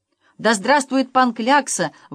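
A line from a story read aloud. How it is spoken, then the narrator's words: Excited shout. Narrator (Russian): в волнении закричал главмакарон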